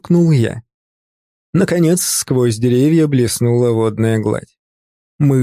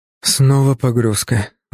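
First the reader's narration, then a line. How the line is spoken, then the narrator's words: Tired sigh. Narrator (Russian): вздохнул я, чувствуя, как устали мышцы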